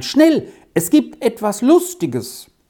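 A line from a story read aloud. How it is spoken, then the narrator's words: Calling inside. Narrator (German): rief hinein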